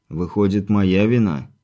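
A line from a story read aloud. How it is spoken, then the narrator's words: Heavy sigh. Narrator (Russian): тяжко вздохнул Виктор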